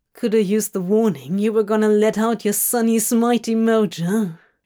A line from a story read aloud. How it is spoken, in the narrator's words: He grumbled, hoping to recover a bit of demonic dignity as the frightened trembling turned into a pleasurable whole-body shiver